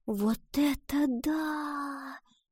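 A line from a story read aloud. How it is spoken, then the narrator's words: Whispered. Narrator (Russian): прошептала Гретхен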